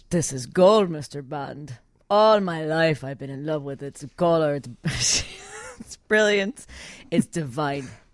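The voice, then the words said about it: Weak German accent drifting Latin. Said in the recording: “I don't know what accent I'm doing. ... It's turning Latin ... Not best German accent ever.”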